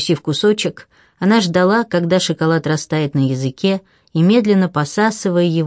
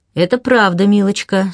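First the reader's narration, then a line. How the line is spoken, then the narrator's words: Dry female voice. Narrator (Russian): сухо проговорила она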